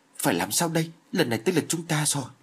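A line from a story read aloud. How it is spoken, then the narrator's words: Panicked, anxious question. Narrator (Vietnamese): Vương Tiên Giao vô cùng sợ hãi, chính như sắp suy sụp đến nơi, mà nôn nóng hỏi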